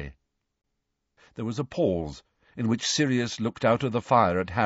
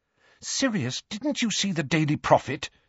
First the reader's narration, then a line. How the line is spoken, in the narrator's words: said Hermione anxiously